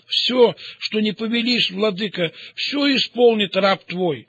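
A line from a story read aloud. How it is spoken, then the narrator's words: Tearful, overwhelmed exclamation. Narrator (Russian): так поразили вельможу, что он в слезах воскликнул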